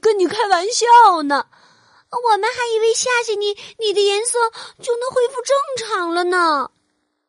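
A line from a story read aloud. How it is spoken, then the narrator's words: Shouting. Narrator (Chinese): 猴子和比尾蒙冲变色龙大喊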